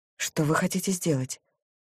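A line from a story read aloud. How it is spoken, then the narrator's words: Whisper. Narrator (Russian): прошептала я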